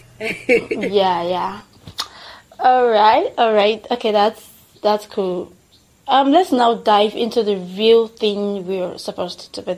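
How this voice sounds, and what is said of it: Nigerian English accent. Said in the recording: “my accent, my Nigerian accent ... We ended up with this half-baked British accent, and we termed it Nigerian accent,”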